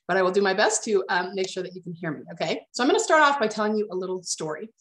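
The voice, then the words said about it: Nasal voice from a cold. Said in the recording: “I am still recovering from a cold I've had for like 2 weeks. So if my voice sounds just a little bit nasally, that's why.”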